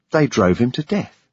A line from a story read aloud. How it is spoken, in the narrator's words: Ida said happily